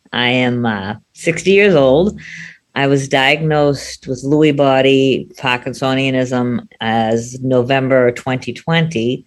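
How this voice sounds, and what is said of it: Boston accent. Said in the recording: “we also love her accent, too, because she's from Boston”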